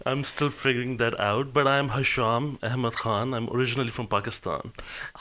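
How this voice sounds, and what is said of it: Unusual accent with some English influence. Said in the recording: “you have very unusual accent. You have little English in you”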